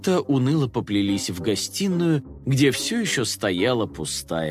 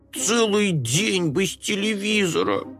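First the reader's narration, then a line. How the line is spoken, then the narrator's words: Groaned. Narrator (Russian): простонал Компот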